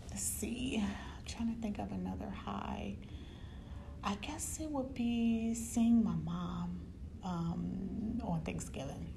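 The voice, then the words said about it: Quiet, near-whispered speaking voice. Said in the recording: “if it sounds like I'm whispering. I just don't want to be too loud because I am at work.”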